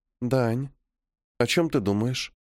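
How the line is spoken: Quiet question. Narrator (Russian): Тихо спрашивает моя девушка

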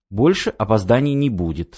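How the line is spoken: Plain. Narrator (Russian): сказал Давид

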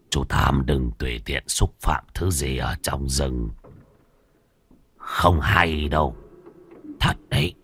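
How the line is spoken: Soft old man's reminder. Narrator (Vietnamese): Lão ăn mày khẽ nhắc

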